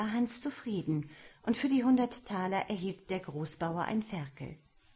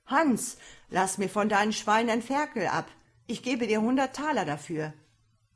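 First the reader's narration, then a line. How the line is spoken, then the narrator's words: Delighted call. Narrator (German): freute er sich ebenfalls und rief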